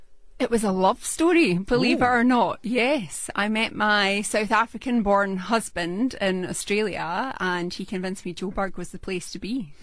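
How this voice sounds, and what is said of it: Scottish Glaswegian accent. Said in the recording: “That's a Scottish accent, isn't it? ... It is indeed a Glaswegian accent.”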